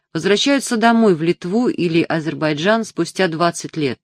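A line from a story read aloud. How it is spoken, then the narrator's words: Plain, driver. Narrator (Russian): сказал ей шофер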